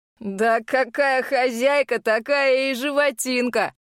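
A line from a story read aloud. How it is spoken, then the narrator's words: Heard amid laughter. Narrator (Russian): доносится вместе со взрывом хохота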